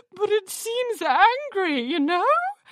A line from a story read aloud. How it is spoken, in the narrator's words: Dandy Grandeur whimpered